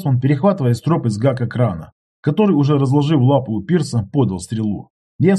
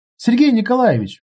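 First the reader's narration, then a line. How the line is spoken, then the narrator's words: Called out. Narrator (Russian): окрикнула меня Оксана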